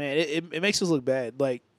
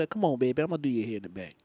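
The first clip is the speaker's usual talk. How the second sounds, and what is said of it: Put-on New Orleans accent. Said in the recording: “That was like a New Orleans accent.”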